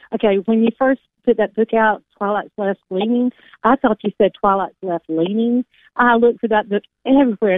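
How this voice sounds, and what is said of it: Fast-talking Southern US accent. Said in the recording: “You can tell I'm Southern, huh? But I'm a fast talking Southerner.”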